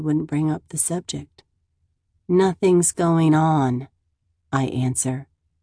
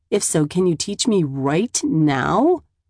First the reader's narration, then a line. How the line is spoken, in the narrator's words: I laugh